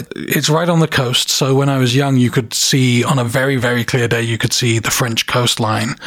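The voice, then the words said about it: Southern English accent. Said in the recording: “i'm originally from the south of England ... holding on to my accent for dear life”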